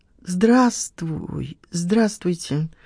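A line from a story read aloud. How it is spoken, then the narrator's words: Mumbling. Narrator (Russian): промямлила Лена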